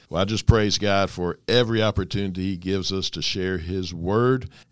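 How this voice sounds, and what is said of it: Voice weakened, recovering from illness. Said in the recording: “my voice starts going out some this morning... getting over a upper respiratory infection... a little bronchitis... my voice isn't all the way back yet”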